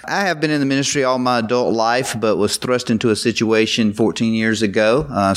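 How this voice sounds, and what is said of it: Southern US drawl. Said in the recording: “I am a Southern Baptist minister. You probably can tell that from the drawl.”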